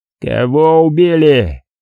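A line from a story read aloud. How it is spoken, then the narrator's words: Growling. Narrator (Russian): прорычал Харрисон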